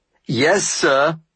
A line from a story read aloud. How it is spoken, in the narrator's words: I shouted in response